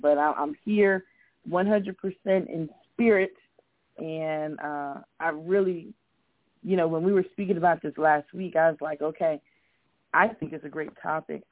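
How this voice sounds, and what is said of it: Strained, worn-out voice. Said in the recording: “Forgive the voice. ... I've been working and talking all day, so the voice is still healing.”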